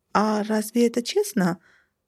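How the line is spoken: Squeak. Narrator (Russian): пискнула я

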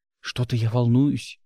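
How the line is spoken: Whisper. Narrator (Russian): шепнула Гилу

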